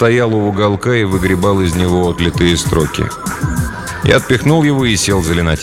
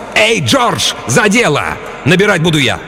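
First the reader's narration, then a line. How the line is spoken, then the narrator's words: Yelled. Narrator (Russian): заорал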